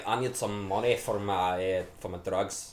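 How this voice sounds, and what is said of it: Weak attempt at Scottish accent. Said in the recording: “That's my best impression. I'm not very good at it.”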